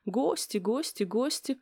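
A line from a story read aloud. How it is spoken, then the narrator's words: Muttering. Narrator (Russian): пробормотала Соня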